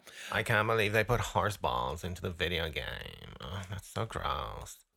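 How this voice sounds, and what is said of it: Croaky vocal fry voice. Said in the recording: “vocal fry ... speak like that the whole time. I find that actually quite soothing ... I like that croaky voice”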